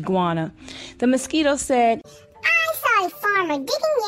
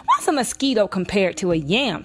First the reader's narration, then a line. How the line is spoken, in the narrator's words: snapped the iguana grumpily